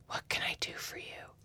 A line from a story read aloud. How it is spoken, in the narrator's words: She whispers, her voice suddenly so earnest